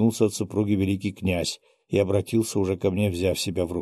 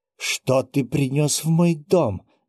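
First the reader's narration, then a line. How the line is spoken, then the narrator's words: Exclaimed without raising voice. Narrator (Russian): не повышая голоса, воскликнула она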